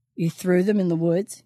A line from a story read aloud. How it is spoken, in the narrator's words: He chuckled